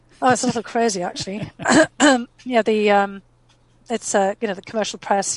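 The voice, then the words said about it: Strained, tiring voice. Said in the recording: “I'm losing my voice”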